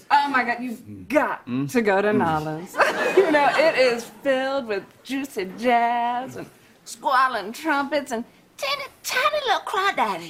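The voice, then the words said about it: Exaggerated bad New Orleans accent. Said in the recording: “my go-to now for the bad New Orleans accent is that character that Heidi Gardner does occasionally on SNL”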